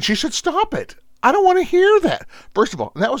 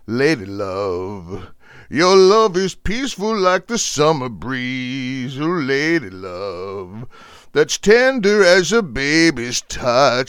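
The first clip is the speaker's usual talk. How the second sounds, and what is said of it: Sung imitation of a soul singer. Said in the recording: “pretty good Lou Rawls impersonation”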